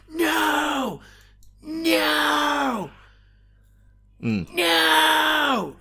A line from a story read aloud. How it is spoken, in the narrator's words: Loomis is just there shouting